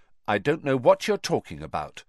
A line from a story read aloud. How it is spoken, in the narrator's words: Harry lied coldly